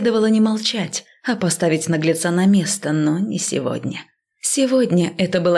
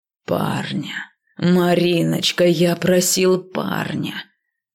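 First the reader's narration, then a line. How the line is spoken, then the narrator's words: Silky, tender singsong. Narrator (Russian): Вкрадчиво и нежно пропел злобный деспот и самодур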